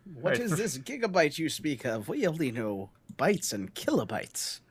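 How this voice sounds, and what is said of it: Imitates an old-fashioned dad's voice. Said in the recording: “your dad impression”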